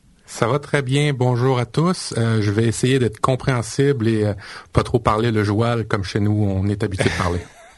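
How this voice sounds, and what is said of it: Canadian French accent. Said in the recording (French): “son délicieux accent canadien”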